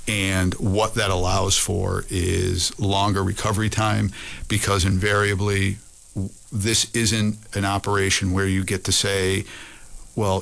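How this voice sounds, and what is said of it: Boston accent. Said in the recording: “where I'm from, thus my accent, we would call it the Boston Modified”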